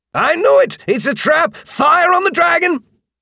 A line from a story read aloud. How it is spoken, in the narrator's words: the guard outside bellowed